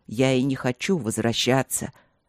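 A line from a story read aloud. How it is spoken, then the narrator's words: Snapped. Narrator (Russian): огрызнулся он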